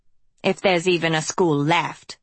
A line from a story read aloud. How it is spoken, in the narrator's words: Hester snapped